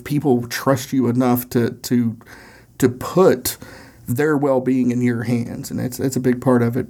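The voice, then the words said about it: Tennessee Southern accent. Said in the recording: “my Tennessee accent”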